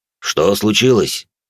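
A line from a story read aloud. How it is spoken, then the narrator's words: Growled. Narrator (Russian): прорычал генерал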